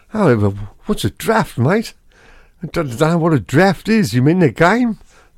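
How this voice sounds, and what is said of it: Put-on Australian accent. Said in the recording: “with an Australian accent”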